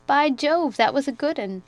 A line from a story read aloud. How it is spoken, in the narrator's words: Georgie burst out laughing and said